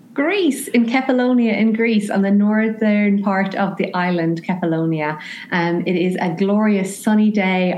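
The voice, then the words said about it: Irish accent. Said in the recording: “the beautiful Irish accent”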